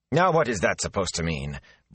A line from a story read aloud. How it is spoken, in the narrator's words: Bran said sharply